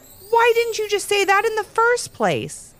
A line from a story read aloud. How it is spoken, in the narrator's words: they both yelled